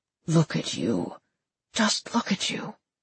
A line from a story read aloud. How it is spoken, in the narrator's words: whispered